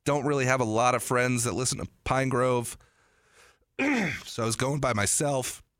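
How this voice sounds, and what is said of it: Strained, fading voice. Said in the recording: “I think I'm losing my voice.”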